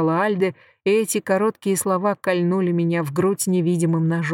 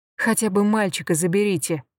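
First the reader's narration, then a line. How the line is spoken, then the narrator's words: Mutter. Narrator (Russian): пробормотала я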